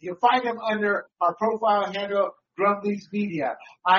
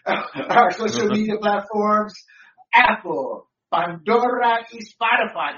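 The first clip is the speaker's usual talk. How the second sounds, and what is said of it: Spanish accent on some words. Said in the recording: “I'm throwing the Spanish accent around.”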